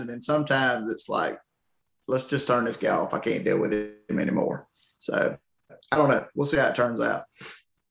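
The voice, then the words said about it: Rural Southern country accent. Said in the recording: “I've got this old country boy voice in it ... your dialect”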